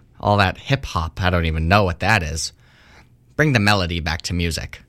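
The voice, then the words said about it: Ben Shapiro impression. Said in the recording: “That's my Ben Shapiro impression”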